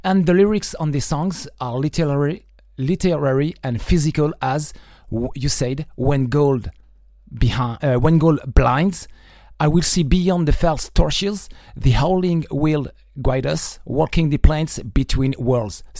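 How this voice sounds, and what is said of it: Non-native accent speaking English. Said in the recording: “Sorry for my accent,”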